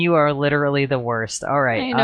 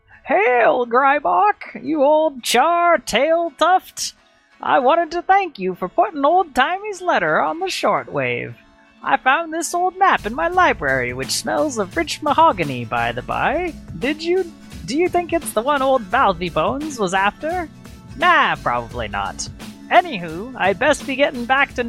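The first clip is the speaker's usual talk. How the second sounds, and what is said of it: Old-timey character voice. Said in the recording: “gonna do my old timey voice”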